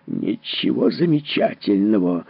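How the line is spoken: Barking snap. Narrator (Russian): рявкнул Поттерли

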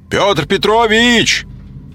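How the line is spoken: Shout. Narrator (Russian): закричал Митя

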